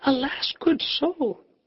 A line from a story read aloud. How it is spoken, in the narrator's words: Three or four wenches cried